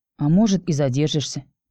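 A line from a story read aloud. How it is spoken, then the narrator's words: Muttered, witch. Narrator (Russian): пробормотала ведьма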